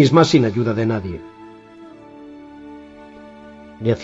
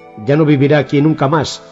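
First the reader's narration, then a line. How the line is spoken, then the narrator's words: Woman, curt tone. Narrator (Spanish): dijo la mujer en tono tajante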